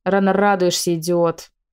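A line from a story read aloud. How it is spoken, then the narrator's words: Barking snap. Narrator (Russian): рявкнула Мариана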